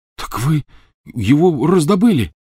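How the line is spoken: Exclamation. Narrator (Russian): воскликнул Рон

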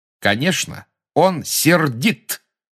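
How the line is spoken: Clear and loud. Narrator (Russian): отчетливо и громко сказала Гермиона

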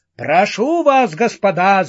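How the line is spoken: Orator shouting. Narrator (Russian): закричал четвертый оратор

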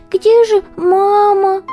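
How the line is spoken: Sobbing. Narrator (Russian): всхлипнул он

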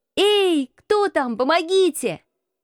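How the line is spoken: Shout. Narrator (Russian): он прокричал еще

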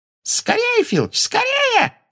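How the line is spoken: Shrieked. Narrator (Russian): взвизгнула Амбридж

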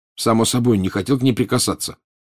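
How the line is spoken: Angry. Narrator (Russian): сердито сказал Гарри

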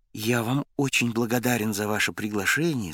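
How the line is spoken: Plain. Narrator (Russian): сказал ему Миша

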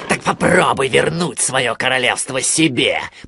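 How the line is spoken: Growling. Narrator (Russian): прорычал он

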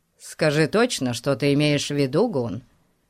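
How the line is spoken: Calm interrupting inspector. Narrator (Russian): Спокойным тоном перебил его инспектор

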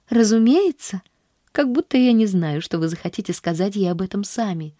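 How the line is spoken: Cheerful, tossed over shoulder. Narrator (Russian): весело бросила она через плечо

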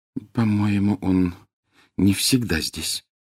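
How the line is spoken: Very quiet. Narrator (Russian): очень тихо сказала Гермиона

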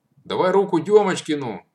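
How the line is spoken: Shout. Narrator (Russian): крикнул Матвей

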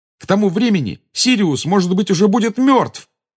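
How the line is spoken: Exclaiming. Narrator (Russian): воскликнул Гарри

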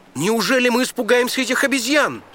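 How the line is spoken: Exclamation. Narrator (Russian): воскликнул Синдбад

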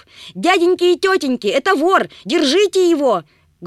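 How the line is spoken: Loud shout. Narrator (Russian): громко закричала она

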